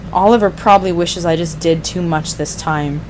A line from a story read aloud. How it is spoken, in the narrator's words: Roy said bitterly